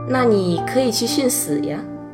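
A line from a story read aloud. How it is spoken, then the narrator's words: Teasing. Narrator (Chinese): 突然调侃般的对我说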